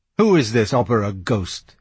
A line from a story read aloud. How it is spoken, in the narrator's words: he snarled